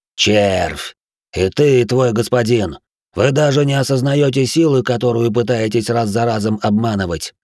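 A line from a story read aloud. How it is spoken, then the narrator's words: Genuine hoarse rasp. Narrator (Russian): Теперь я хрипел уже без притворства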